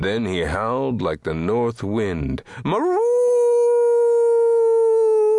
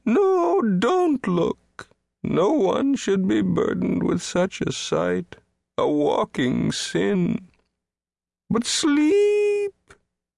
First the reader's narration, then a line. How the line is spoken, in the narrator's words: wailed